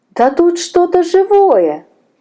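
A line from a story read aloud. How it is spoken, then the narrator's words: Exclaimed. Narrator (Russian): воскликнула Наташа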